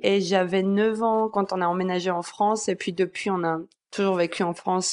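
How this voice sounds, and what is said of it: Slight foreign accent. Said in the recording (French): “ce petit, ce petit accent”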